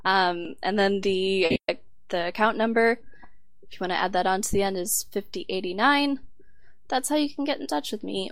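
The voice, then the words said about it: Strained, failing voice cutting in and out. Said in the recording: “My voice is really going. I've noticed it getting worse throughout the show ... it just keeps going in and out.”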